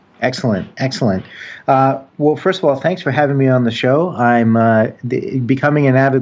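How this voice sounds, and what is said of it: American accent. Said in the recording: “As you can hear already, he has an American accent”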